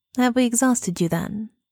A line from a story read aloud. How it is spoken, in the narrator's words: Dorian asked